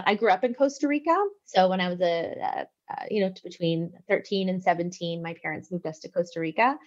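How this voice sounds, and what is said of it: Canadian English accent. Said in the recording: “I'm originally from Canada, so that's, you'll probably pick up on my accent.”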